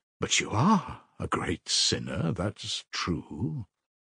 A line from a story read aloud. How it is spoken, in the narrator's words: he added almost solemnly